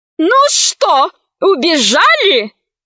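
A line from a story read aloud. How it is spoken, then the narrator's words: Woman yelling, foreign tongue. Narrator (Russian): завопила на космолингве толстая женщина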